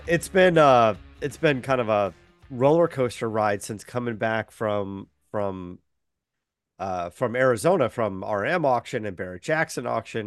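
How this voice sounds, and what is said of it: Sick voice from a cold. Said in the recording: “caught a cold there and been fighting that battle. And so you can still hear it in my voice, a little bit under the weather.”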